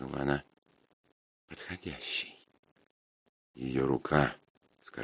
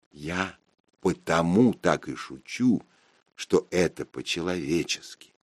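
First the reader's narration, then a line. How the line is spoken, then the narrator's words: Plain. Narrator (Russian): сказал я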